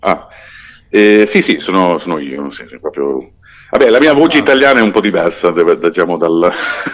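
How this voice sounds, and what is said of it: Italian with English-speaking Canadian accent. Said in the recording (Italian): “io sono canadese, cioè io sono madrelingua inglese ... L'accento quindi... si sente.”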